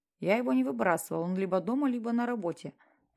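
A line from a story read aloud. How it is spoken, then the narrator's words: Quiet. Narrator (Russian): произнес он тихо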